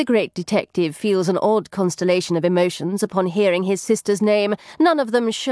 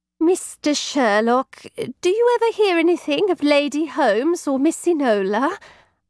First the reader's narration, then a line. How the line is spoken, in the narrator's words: Lane asks timidly